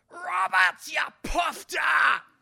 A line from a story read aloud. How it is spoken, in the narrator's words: yells out